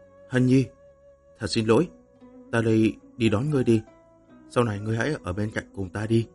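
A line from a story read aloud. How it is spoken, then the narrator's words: Gentle. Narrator (Vietnamese): Lăng Tiếu nhẹ nhàng nói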